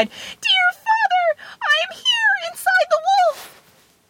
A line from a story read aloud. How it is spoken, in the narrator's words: Tom Thumb cried